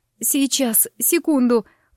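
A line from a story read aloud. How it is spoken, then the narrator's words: Breathless groaning. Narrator (Russian): простонала я, силясь восстановить дыхание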